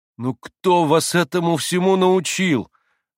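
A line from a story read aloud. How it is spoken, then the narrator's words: Surprised exclamation. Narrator (Russian): воскликнул удивленный Алеша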